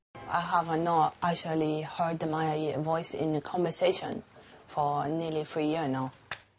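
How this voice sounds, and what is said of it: Mandarin-sounding accent. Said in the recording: “She woke up from surgery with a Mandarin accent.”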